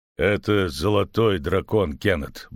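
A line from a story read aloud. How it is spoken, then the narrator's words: Gruff mutter. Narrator (Russian): буркнул Ярпин Зигрин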